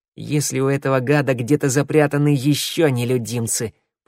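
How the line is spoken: Growled. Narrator (Russian): прорычала Шныряла

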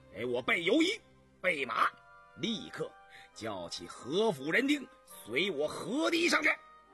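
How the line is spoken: Stern order. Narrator (Chinese): 田文静再不犹豫了，厉声吩咐

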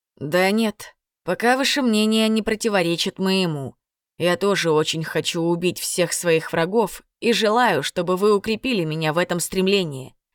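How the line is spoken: Frank admission. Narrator (Russian): честно признался наблюдатель

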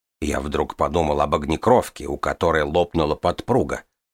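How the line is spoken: Plain. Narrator (Russian): сказал он

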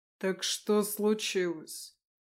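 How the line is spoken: Icy question. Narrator (Russian): уже ледяным тоном спросил Леконт

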